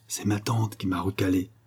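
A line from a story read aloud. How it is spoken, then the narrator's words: Quiet reply. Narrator (French): répondit tout bas Rocambole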